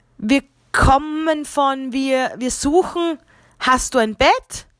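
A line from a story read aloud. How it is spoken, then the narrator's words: Stammered. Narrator (German): stammelte Josef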